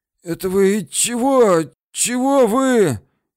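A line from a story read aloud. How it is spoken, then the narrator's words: Through gritted teeth. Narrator (Russian): говорил он сквозь зубы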